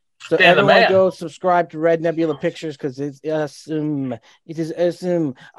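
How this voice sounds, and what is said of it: Donald Trump impression, Pepe Le Pew-like. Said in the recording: “I went into a Trump mode there. ... I was thinking you sound a little bit more like Pepe Le Pew”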